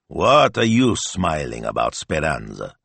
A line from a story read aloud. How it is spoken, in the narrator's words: growled Signor Maestro